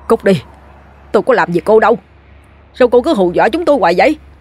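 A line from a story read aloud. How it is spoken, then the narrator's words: Shouting. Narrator (Vietnamese): Gã hét lên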